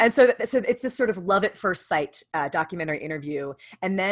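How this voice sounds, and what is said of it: Usual voice. Nothing is said of it.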